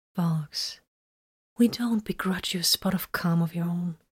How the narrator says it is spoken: she said soothingly

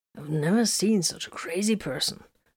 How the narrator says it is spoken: Hiram murmured

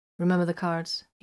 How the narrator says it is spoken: asked curtly

